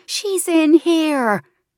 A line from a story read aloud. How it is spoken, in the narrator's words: Raw throat, desperate, she screams